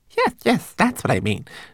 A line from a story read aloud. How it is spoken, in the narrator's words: Twigleg giggled nervously